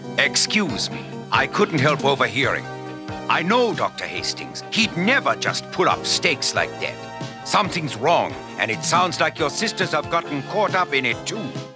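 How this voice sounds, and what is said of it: Vague generic European accent. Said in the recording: “no discernible accent, specific accent. I mean, it's like French, it's German. It's generic European.”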